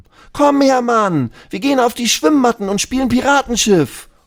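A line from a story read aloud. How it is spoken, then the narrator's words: Called out. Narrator (German): ruft Lulu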